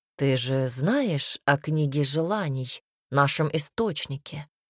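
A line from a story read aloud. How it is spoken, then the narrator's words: Plain. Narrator (Russian): спросил Гассиард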